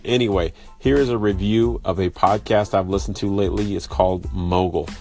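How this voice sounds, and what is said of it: Sick, congested voice. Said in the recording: “My voice is different, coming from a pretty bad cold.”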